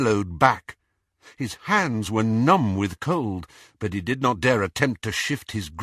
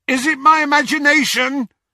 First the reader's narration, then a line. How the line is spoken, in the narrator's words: shouted Ron